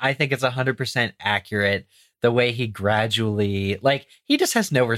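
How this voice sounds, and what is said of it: Usual voice. Nothing is said of it.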